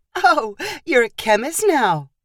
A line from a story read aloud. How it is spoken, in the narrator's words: Chelsea laughed